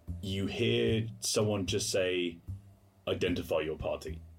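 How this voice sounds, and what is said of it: Deep, serious character voice. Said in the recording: “A deep voice, and quite a serious one.”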